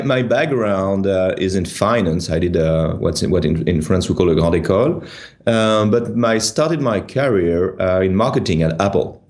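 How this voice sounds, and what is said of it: Strong French accent. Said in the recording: “my horrendous accent,... I'm French.”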